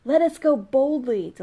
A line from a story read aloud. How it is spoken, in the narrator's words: Delilah cried